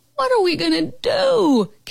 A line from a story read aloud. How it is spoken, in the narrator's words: Carol Costa howled